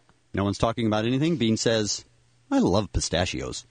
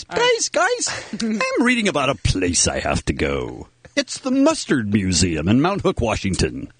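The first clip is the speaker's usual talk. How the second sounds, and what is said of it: Imitation of a friend's voice. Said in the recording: “going to do the Bean voice.”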